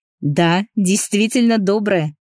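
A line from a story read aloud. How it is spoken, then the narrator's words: Laughing. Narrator (Russian): рассмеялся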